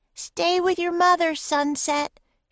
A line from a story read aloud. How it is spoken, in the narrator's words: shouted Annie